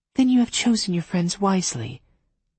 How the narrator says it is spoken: Mary said kindly

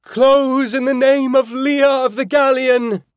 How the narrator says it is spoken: Claudia bellowed

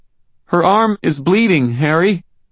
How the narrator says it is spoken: Molly said, her voice shaking

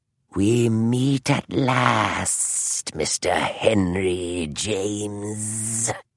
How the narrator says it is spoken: hissed Moriarty

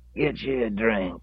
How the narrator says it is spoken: wheezed

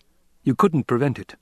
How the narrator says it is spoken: he snapped

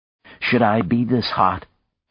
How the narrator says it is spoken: he asked Ursula anxiously

